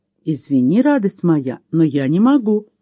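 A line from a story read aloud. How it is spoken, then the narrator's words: Plain. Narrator (Russian): ответил ей Чейз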